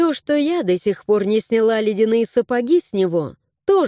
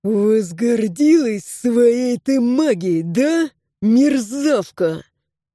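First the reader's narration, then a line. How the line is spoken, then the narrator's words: Hiss. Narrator (Russian): прошипел засранец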